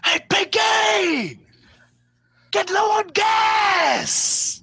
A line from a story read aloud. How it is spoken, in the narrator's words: somebody next to you shout